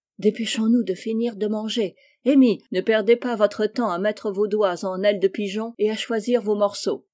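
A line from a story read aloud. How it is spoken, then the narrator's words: Exclaimed. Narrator (French): s'écria Joe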